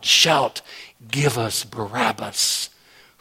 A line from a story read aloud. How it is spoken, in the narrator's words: whispering in the ear of the crowd